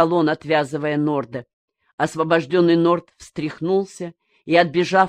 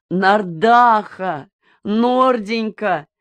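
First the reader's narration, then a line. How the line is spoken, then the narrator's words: Hostess crying out joyfully. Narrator (Russian): радостно вскрикнула хозяйка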